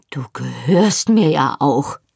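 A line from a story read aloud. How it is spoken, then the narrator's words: Thundering. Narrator (German): donnerte er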